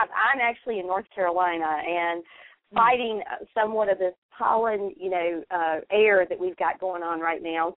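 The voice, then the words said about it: Southern US accent. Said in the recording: “I'm very much southern, very southern ... that is such a different accent, let's say, than Oklahoma or Texas ... The way the vowel sounds were”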